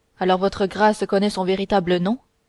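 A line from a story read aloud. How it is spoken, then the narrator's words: Curt question. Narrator (French): demanda Felton d'une voix brève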